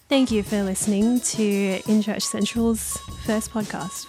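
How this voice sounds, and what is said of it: Radio announcer voice. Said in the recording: “Radio voice.”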